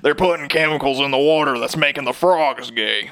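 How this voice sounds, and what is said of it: Imitates another person's voice. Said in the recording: “my best Alex Jones impression”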